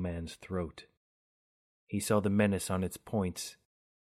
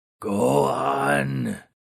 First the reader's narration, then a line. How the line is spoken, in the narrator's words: Thunderously croaked the ghoul